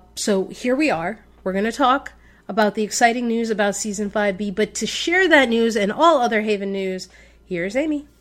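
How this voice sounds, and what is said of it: Sick, under-the-weather voice. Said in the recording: “Still a little bit under the weather, as you can probably hear from my voice. ... dying of a cough attack”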